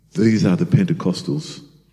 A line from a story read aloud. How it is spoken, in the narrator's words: Peter whispered